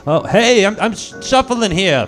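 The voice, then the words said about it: Put-on Brooklyn twang. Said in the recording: “in that this delectable Brooks and twang”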